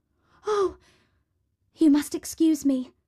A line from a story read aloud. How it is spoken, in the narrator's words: exclaimed Cinderella